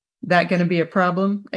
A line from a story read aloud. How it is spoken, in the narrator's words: Angel asked